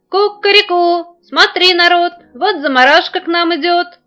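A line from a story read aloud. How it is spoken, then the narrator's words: Rooster crowing shout. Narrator (Russian): увидел петух, какая она стала чумазая, закричал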